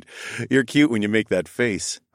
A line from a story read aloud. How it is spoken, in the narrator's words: I chuckled